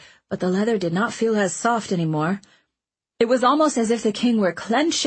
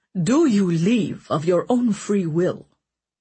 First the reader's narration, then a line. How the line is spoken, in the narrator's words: he asked Owen sternly